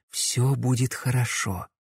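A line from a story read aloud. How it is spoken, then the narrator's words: Whisper. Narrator (Russian): шепнула она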